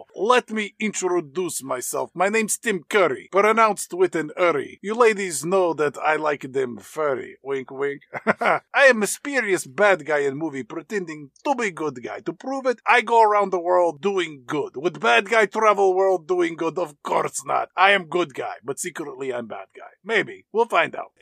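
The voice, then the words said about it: Tim Curry's put-on Romanian accent. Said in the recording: “Romanian accent”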